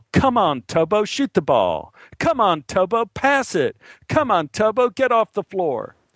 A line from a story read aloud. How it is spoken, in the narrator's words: the parents could always yell